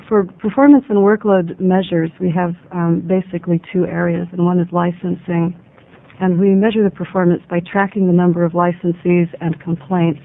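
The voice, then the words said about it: Unwell, strained voice. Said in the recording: “forgive my voice. I'm getting over something not so quickly.”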